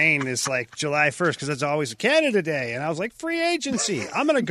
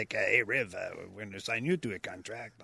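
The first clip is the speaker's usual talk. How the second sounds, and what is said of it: Imitates another person's accented voice. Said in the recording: “He always had that accent?”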